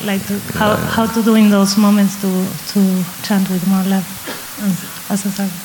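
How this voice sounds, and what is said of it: Strong Brazilian accent. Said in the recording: “It was with a strong Brazilian accent.”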